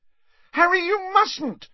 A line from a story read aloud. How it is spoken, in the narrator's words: shrieked Hermione